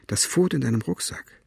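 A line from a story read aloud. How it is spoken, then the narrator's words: Plain. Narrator (German): sagte er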